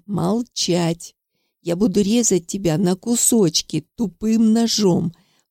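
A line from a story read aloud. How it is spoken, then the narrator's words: Strained through teeth, in pain. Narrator (Russian): Процедил сквозь зубы Карпушкин, побледневший от боли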